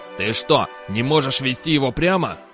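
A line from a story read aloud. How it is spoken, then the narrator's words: Growled. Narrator (Russian): прорычал арканцлер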